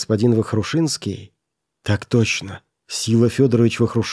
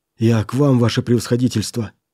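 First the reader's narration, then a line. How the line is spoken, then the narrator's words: Excited. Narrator (Russian): взволнованно начал он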